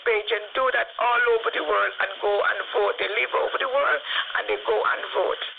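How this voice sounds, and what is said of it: Crooked, strained-sounding voice. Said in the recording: “I'm suffering from the asthma at the moment. That's why my voice sounds a little bit so crooked.”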